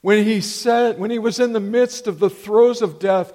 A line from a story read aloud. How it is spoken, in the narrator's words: Jesus cried out